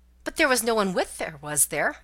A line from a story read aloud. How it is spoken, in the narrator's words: asked one of the ladies anxiously